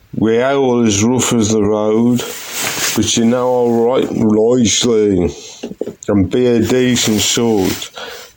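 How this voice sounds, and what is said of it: Black Country accent. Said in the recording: “My accent and heart will be forever the Black Country.”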